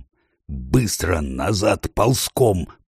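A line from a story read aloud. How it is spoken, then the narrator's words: Hoarse rasp. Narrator (Russian): прохрипел Трам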